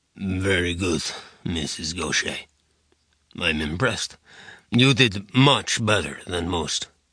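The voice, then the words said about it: Lovely accent of unknown origin. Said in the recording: “Your accent is quite lovely, too, but I have no idea where it comes from.”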